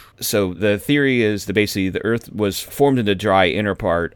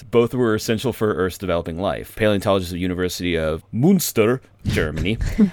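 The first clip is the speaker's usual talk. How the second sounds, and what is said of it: Put-on Scandinavian accent. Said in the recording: “I don't know why I said that with a Scandinavian accent.”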